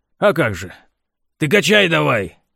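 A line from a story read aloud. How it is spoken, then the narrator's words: Barking. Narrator (Russian): рявкнул механик помощнику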